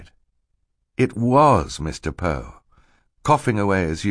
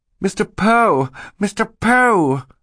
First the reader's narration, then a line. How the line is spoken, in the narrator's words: Violet cried